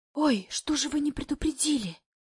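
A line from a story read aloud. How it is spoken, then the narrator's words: Nanny whispering. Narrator (Russian): шепчет няня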